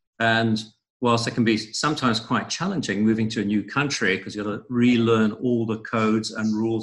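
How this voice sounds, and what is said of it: Strange, mixed international accent. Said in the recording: “I have a strange accent ... it's because I've lived in four countries across three continents”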